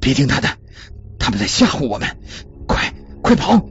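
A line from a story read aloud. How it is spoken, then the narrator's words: Breathless panting. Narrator (Chinese): 珍妮喘着气说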